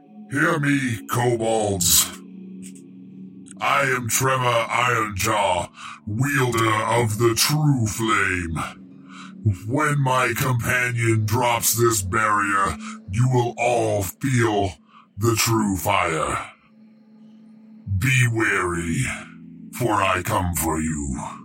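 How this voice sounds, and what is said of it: Deep booming character voice. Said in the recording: “booming my voice, causing tremors when I step. And ... going to do his best deep voice”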